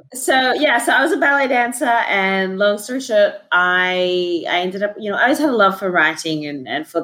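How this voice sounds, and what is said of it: Australian accent. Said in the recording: “the great accent. ... the Australian.”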